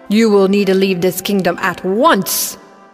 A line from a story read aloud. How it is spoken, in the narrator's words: the security trolls that growled